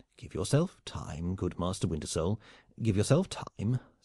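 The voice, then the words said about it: Soothing, calming voice. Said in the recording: “in a soothing voice”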